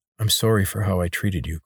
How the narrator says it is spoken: Corvin said

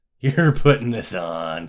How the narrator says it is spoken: laughed

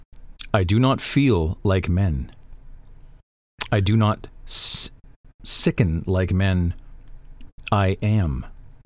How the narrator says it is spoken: the Stormfather rumbled

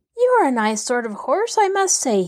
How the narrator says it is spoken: he exclaimed

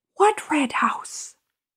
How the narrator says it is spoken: Lady White whispered

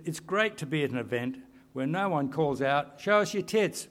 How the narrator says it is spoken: someone called out

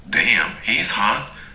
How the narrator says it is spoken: exclaimed Dax

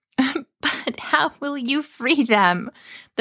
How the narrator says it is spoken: asked in between gales of laughter

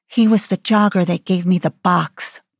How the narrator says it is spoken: Carly whispered to Stacy

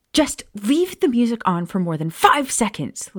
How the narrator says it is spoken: Lily snapped

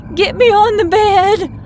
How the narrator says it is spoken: cried, trying in vain to pull myself up

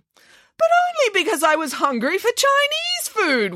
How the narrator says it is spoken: wailed Nanny Piggins

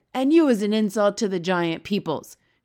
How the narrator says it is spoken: shouted the blood bottler

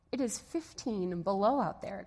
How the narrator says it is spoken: exclaimed the father

